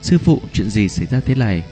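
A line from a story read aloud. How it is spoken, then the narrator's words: Urgent question. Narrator (Vietnamese): Cháy đen trong lòng gấp giọng hỏi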